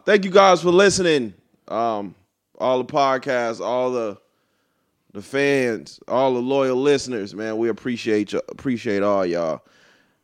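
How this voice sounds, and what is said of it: Congested, sick-sounding voice. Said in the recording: “Excuse my voice ... This nigga done got sick again ... My allergies ... you got a whole sock stuck in your nose”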